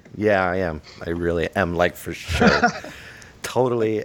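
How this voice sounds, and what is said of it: Put-on Valley boy accent. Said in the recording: “You're a Valley boy.”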